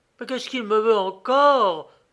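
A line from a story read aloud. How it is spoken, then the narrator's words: Exclaiming. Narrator (French): s'écrie Paola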